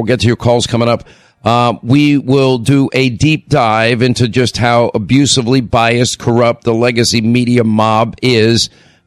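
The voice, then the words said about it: Hoarse, strained voice. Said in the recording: “I don't want to hear it about my laryngitis.”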